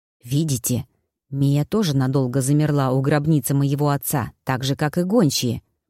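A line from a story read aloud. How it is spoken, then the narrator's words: Whispering. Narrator (Russian): прошептал Люк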